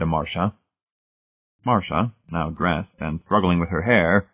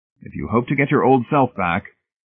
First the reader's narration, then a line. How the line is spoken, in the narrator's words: told her firmly